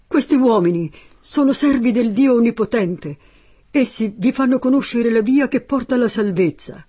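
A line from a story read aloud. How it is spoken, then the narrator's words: Girl shouting. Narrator (Italian): Quella ragazza gridava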